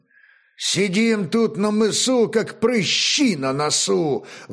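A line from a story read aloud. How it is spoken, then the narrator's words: Grumbling mighty commander. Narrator (Russian): ворчал могучий старший темник Веряга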